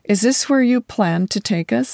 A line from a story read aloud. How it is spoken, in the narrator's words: I asked